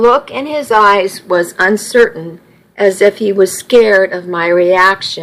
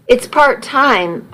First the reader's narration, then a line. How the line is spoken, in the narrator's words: I muttered